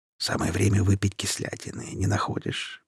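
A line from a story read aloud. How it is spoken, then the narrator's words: Whisper. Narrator (Russian): прошептал парень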